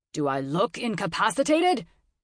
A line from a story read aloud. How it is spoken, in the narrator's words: Clarence roared